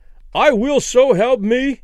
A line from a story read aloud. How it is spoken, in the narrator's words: Danny cried with abrupt conviction